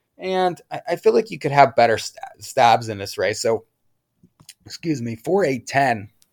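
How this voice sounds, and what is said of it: Hoarse, voice giving out. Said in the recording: “did I lose my voice? ... Wow, I can't talk at all now.”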